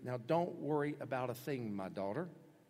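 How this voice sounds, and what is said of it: Tender, gentle delivery. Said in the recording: “You hear the tenderness in his voice, the sensitivity in his voice.”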